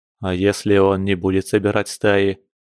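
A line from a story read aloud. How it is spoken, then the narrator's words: Gloomy. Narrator (Russian): мрачно уточнил Кир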